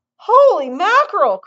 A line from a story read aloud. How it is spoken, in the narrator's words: cried Mr